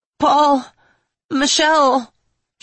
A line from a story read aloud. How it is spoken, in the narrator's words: she said, as her voice cracked